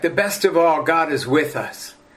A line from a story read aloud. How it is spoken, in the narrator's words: in triumph, he exclaimed with thrilling effect